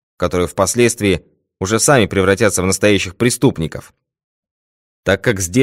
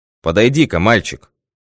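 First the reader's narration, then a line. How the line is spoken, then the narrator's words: Stern command. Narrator (Russian): строго приказал Пинкертон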